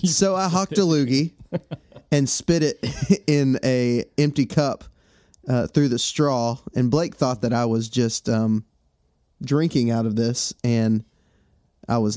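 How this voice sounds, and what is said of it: Congested, stuffy-nosed voice. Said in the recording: “I've been real sick. I don't know if you can tell my voice is... not 100%, and my nose has stopped up. It was just terrible sinus issues.”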